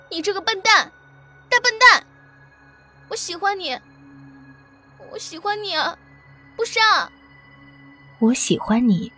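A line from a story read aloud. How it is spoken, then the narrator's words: Choked tearful shout. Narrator (Chinese): 晶莹的泪珠忽然如断线的珠子般一滴滴落下来，忽然哽咽的大喊道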